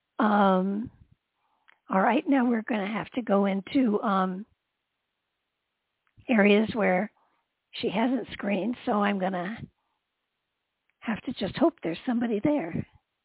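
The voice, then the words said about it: Hoarse voice. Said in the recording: “hoarse ... I hear you”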